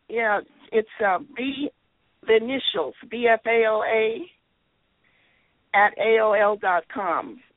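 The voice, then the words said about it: Hoarse voice. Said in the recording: “I'm hoarse”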